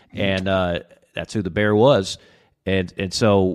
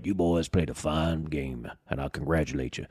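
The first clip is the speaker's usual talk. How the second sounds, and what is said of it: Bear Bryant impression. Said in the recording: “that's pretty good. ... That's not a bad Bear Bryant.”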